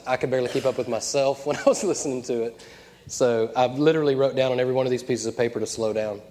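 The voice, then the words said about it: Congested, mellow voice. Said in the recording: “struggling with sinus stuff ... slightly Sudafed head ... my voice is a little different, or I'm a little more mellow than normal”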